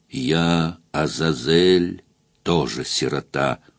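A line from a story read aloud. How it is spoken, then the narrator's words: Whispered. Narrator (Russian): зашептал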